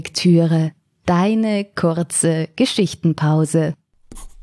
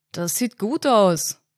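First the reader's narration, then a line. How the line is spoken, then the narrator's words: Man calling out, muffled. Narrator (German): rief der Mann, den Kopf zwischen den Rohren der Gastherme verborgen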